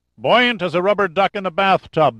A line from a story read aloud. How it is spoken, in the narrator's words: the seaman bellowed back through cupped hands